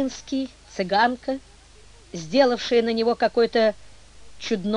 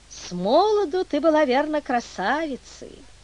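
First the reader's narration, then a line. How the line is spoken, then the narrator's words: Tender speech. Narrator (Russian): Артемий Петрович ласково сказал ей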